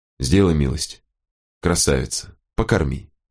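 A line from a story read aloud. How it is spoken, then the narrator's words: Quiet. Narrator (Russian): Волкодав негромко сказал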